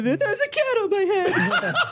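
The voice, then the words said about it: Kevin McDonald impression. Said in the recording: “doing a little Kevin McDonald impersonation for a second ... Anytime you do that voice, you have to end it with cat on my head ... the only Kevin McDonald impression”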